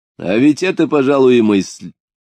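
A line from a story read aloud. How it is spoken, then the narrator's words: Laughing exclamation. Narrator (Russian): смеясь, воскликнул Потемкин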